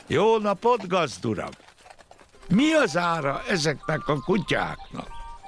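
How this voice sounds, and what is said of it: Loud, raised voice. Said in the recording (Hungarian): “Megszólította fennhangon.”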